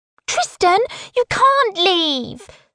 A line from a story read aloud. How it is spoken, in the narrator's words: Simon squeals